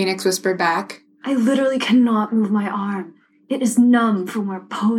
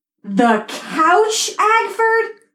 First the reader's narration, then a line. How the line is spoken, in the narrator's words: She shouted